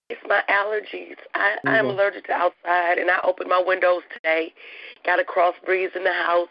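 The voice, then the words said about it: Hoarse, strained voice. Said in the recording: “I lost my voice, and it's just not coming back.”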